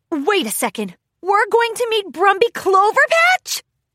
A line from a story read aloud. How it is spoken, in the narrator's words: Rainbow Dash squealed with unfettered excitement